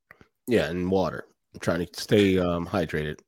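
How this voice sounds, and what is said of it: Nasal, deeper sick voice. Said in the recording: “he's sick. He's feeling a little bit under the weather ... I'm very nasally today ... my voice is a little deeper”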